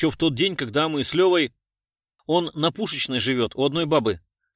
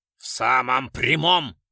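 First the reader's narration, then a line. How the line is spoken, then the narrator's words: Bark, general. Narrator (Russian): рявкнул генерал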